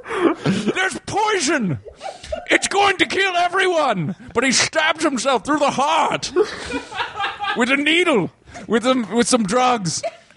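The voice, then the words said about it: Put-on German accent. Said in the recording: “this German accent”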